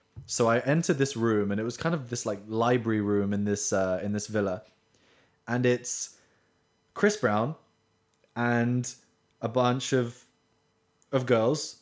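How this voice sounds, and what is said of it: British accent. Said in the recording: “as you can tell from my voice, a very white British guy”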